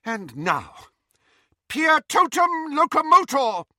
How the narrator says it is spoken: cried Professor McGonagall

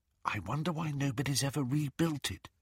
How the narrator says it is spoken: whispered Hermione

